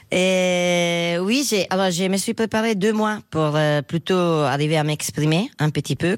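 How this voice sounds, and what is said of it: Strong foreign accent speaking French. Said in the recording (French): “Vous entendez que mon accent est encore très fort.”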